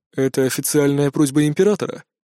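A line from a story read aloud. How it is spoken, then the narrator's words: Dry clarifying question. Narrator (Russian): сухо уточнил глава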